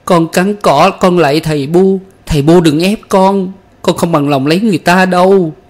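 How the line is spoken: Frantic screaming. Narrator (Vietnamese): gào thét như một con điên

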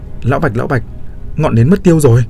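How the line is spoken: Urgent yelling. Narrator (Vietnamese): vội vã xoay người gào lên với Bạch Dực

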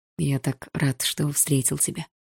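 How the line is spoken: Quiet. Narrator (Russian): тихо сказал Игорь

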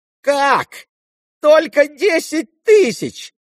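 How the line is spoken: Shouting. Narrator (Russian): закричал Ипполит

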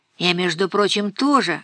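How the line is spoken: Snort. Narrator (Russian): хмыкнул Дима

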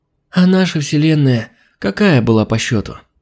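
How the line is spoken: Sleepy question. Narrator (Russian): сонно уточнила Алина

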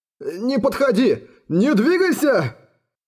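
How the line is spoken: Men shouting. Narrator (Russian): Мужчины снова закричали

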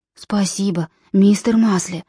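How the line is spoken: Whisper. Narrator (Russian): прошептал он

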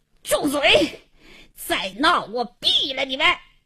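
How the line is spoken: Furious hoarse shout. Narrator (Chinese): 王经理气得嘶哑着嗓子喝道

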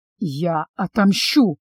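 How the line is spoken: Vengeful hiss. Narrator (Russian): прошипел, чувствуя, как ледяным цветком распускается в сердце желание разорвать тех, кто лишил меня моего счастья

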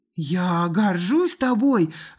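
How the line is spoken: Exclaiming. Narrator (Russian): воскликнула рыжая

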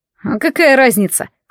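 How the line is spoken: Snort. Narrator (Russian): фыркнул боевик

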